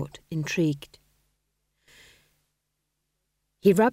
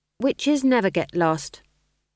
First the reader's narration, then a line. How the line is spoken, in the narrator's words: said Magrat firmly